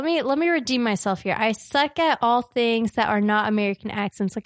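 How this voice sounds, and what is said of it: Usual voice. Nothing is said of it.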